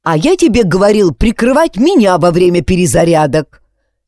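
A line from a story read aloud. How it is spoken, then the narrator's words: Angry interjection. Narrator (Russian): сердито вставил я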